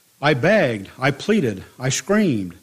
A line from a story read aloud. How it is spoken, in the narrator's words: I cried